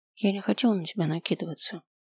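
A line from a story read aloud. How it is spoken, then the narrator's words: Quiet. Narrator (Russian): тихо сказала я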